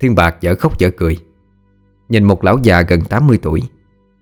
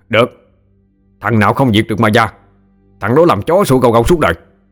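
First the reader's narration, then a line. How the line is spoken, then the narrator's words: Angry shout. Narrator (Vietnamese): Trần Tam cũng giận, mà quát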